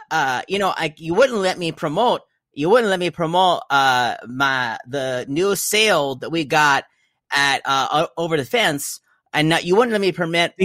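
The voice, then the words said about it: Put-on new accent. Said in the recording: “You're doing that accent class ... this is me trying out my new accent”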